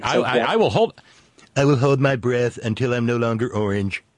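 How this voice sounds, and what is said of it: Imitates another person's voice. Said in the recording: “my impression of another impression doing Ed Sullivan ... Thou art a better Trump than I”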